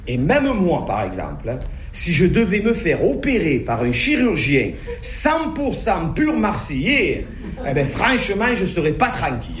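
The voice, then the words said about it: Marseille French accent. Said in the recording (French): “à Marseille ... Notre accent est parfois rigolo ... il ne fait pas franchement sérieux”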